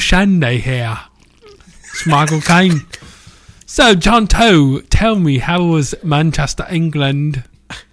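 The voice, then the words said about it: English accent, imitates another person's voice. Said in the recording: “the English ... talk like Michael Caine”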